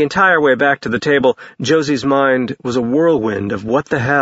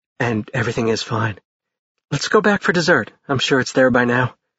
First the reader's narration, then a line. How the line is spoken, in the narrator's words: Josie murmured